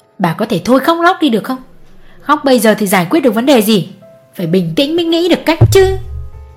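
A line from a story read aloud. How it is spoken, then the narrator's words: Snapping irritably. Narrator (Vietnamese): Ông gắt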